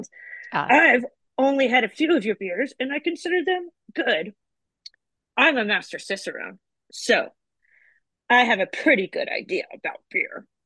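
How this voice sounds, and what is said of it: Old man character voice. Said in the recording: “Do the voices. ... You want a voice? ... He's old. That's how he sounds.”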